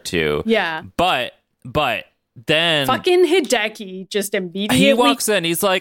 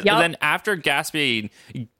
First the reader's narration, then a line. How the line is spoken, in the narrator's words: Hideki giggles